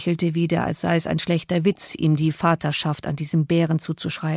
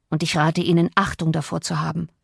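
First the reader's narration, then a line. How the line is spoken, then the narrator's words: Growled. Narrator (German): knurrte der andere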